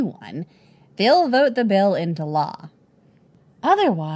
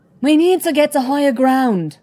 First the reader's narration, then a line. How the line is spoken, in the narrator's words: she yells through the wind and the driving rain